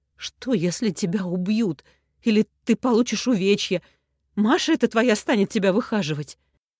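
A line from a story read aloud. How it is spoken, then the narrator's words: Groaning. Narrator (Russian): застонал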